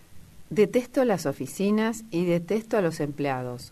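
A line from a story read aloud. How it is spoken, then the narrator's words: Plain answer. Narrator (Spanish): contestó él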